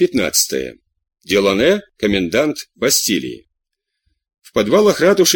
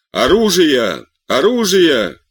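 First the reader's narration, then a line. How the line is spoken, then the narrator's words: Shouting crowd. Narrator (Russian): кричали со всех сторон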